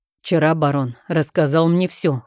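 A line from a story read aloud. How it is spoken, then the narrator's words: Cold declaration. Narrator (Russian): холодно заявил герцог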